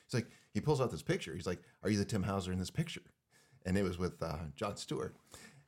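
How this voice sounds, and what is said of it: Choked-up emotional voice. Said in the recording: “I'm getting choked up here... Take your time... Long pauses... Deep breaths, long pauses.”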